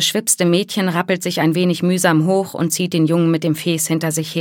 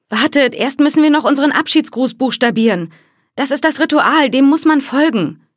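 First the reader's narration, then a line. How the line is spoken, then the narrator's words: Pleading hostess. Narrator (German): sagt die Gastgeberin in flehendem Ton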